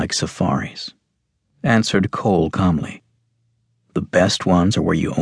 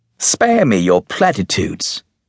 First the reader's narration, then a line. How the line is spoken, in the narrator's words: snapped the Duke